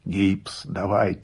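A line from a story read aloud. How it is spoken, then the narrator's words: Hoarse reply. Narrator (Russian): сипло отозвался я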